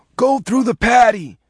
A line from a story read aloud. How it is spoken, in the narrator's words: Lieutenant Gearhart said hoarsely